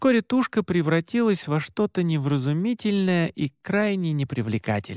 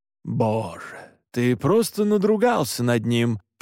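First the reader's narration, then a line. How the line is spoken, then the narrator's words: Grumbling. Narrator (Russian): проворчал Александр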